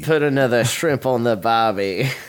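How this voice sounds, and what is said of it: Put-on Australian accent. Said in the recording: “do you do Australian accent?”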